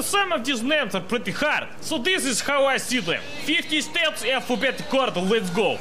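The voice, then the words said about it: Thick Russian or Estonian accent. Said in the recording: “this thick Russian accent or Estonian accent”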